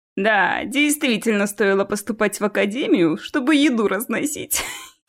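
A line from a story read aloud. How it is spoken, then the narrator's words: Giggling. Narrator (Russian): хихикнул Энджел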